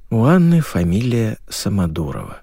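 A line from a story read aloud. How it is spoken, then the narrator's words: Sighing. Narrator (Russian): вздохнул Герман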